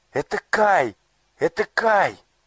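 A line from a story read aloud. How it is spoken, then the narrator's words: Joyful exclamation. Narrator (Russian): радостно воскликнула Герда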